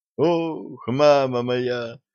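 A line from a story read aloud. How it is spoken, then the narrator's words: Doctor's groan. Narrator (Russian): застонал доктор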